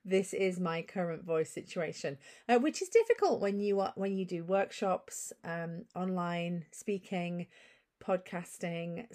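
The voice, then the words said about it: Gravelly, deeper recovering voice. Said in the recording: “my voice isn't 100% back yet. So if I sound a little gravelly or deeper”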